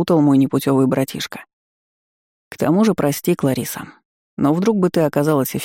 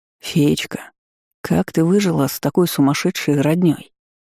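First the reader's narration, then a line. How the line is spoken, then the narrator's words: Insinuating question. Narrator (Russian): вкрадчиво спросил гость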